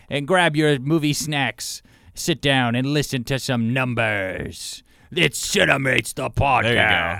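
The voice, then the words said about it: Dramatic movie trailer announcer voice. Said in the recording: “You got your movie trailer voice on.”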